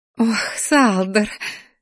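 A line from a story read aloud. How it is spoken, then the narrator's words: Laughing woman. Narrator (Russian): захохотала женщина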